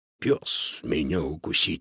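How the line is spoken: Quiet chuckle. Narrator (Russian): тихо усмехнулся Додо

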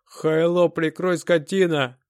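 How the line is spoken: Thug shouting. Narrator (Russian): крикнул бык

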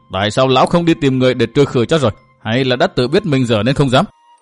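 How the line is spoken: Growing fury. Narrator (Vietnamese): chủ mẫu lại càng giận dữ, lại càng giận dữ

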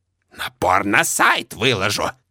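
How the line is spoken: Angry hiss. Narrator (Russian): Злобно шипит соседка

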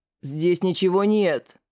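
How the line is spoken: Growled. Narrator (Russian): прорычал он

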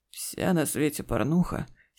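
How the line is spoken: Hoarse. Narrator (Russian): сипло начал Игорь

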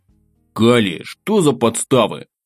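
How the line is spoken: Grumbled. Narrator (Russian): проворчал я

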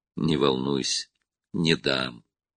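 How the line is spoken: Plain. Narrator (Russian): ответил Роб

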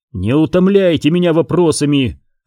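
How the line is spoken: Sharp bark. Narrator (Russian): рявкнул Оби-Ван

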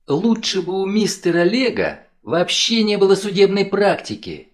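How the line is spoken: Sudden passionate exclamation. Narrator (Russian): С неожиданной страстью воскликнула она вслух

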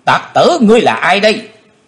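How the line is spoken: Loud yell. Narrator (Vietnamese): tiếng quát của Tần Phương Lan thét lớn

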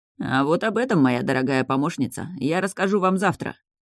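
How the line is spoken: Snorting. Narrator (Russian): хмыкнул мужчина

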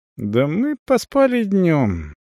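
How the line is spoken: Thoughtful reply. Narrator (Russian): задумчиво отвечает Лена

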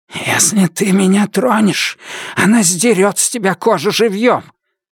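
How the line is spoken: Hoarse rasp, foreign language. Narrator (Russian): На языке Роксура он прохрипел

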